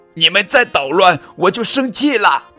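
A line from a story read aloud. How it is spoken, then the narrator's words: Shouting. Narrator (Chinese): 波比大喊道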